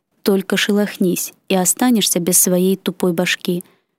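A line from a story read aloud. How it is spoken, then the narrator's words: Furious whisper. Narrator (Russian): яростно прошептав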